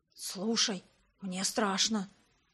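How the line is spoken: Whisper. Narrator (Russian): шепнул Грег

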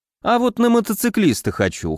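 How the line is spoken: Snort. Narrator (Russian): хмыкнул я

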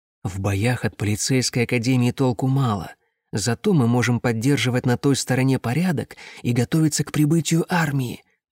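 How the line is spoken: Whisper. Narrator (Russian): прошептал мне командир отряда

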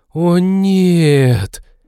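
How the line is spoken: Group exhaling together. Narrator (Russian): дружно выдохнула команда

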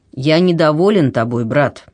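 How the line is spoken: Stern. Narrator (Russian): он сказал ему строго

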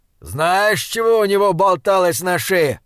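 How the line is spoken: Shout. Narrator (Russian): крикнул он

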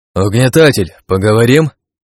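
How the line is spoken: Opponent's shout. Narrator (Russian): крикнул противник

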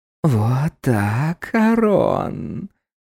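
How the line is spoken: Whisper. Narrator (Russian): продолжал звучать шепот

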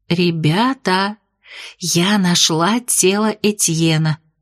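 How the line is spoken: Whispered. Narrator (Russian): шепотом сообщила я

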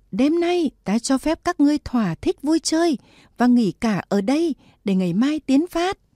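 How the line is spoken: Loud shout. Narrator (Vietnamese): Lý Tiểu Muội thét lớn

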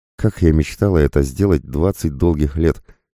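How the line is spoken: Woman, deep sigh. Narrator (Russian): вздохнула полной грудью женщина

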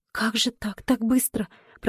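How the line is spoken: Whisper. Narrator (Russian): прошептала Поля, закрыв лицо руками

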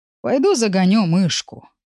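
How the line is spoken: Sighing. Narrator (Russian): вздохнул Бэк

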